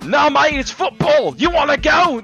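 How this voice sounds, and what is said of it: Put-on accent. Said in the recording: “This accent will not go away at all.”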